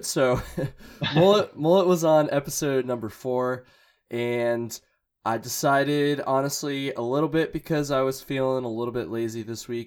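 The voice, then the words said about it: Scratchy, hungover-sounding voice. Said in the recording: “I'm a little bit hungover, so sorry for my voice scratchiness”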